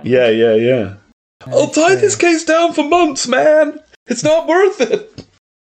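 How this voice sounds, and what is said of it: Cartoon character voice impression. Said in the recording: “my Shaggy impression.”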